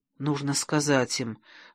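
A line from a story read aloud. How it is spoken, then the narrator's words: Whisper. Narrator (Russian): прошептала Грима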